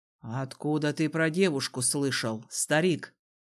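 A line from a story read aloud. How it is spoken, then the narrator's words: Menacing question. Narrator (Russian): грозно спросил Дезмонд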